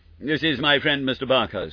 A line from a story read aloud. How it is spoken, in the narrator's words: said Holmes